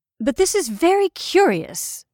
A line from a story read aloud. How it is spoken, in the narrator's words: I cried at last